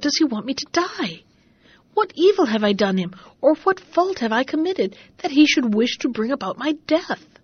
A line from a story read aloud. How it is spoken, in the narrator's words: exclaimed Bobino